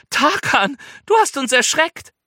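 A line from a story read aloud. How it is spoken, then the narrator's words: Laughing call. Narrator (German): ruft Lila und lacht schon wieder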